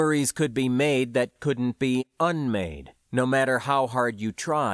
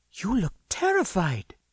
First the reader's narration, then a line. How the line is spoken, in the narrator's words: she said quietly, very concerned